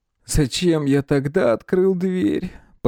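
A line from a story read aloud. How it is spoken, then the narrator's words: Almost moaning. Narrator (Russian): почти простонал Николай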